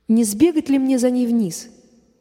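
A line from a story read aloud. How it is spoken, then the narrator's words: Plain. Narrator (Russian): говорит опять Коля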